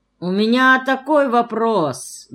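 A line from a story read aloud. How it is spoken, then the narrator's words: Nasal drawling voice. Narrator (Russian): гнусавя, растягивая слова, начал Рыжов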